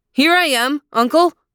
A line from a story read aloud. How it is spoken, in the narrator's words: Aladdin called out